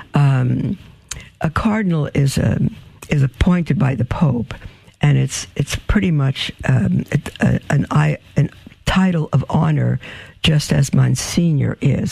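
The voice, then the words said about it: Raspy, scratchy voice. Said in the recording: “I don't know why my throat is so raspy.”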